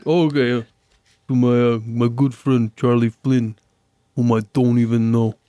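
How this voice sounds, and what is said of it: Imitates a character's voice. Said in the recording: “Rocky's line ... act it out ... that was terrible ... No, it sounded just like him.”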